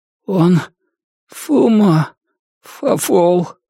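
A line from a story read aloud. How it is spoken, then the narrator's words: Weak, pained voice. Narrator (Russian): выдавил Джон вялым, страдальческим голосом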